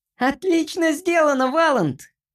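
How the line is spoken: Squeaky. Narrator (Russian): пропищал тот

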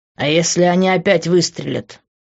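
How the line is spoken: Angry question. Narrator (Russian): зло спросил он

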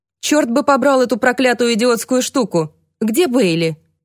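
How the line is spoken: Grumbling. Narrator (Russian): ворчал тот

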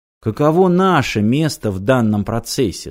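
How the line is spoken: Plain. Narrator (Russian): спросил Доггар Кен

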